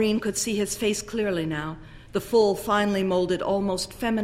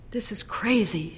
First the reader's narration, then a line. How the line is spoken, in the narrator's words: she murmured